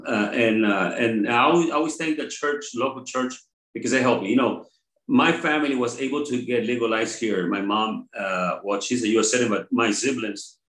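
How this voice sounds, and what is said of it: Very strong accent. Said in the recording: “I have a very strong, what do you call that, accent.”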